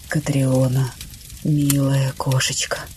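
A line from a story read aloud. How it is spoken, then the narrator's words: Whispering. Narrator (Russian): шептал он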